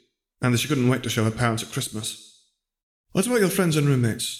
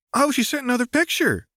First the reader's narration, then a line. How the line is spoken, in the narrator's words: squeaked Tallulah